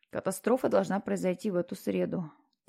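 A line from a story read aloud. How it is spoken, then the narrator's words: Quiet statement. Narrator (Russian): тихо произнес он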